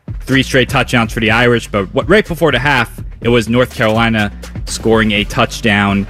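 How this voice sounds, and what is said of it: New York, New Jersey accent. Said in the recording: “I heard your New York accent kind of come out in that update. I heard the New York, New Jersey accent ... Like, it was very New York.”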